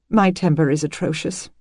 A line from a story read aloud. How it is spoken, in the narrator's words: she murmured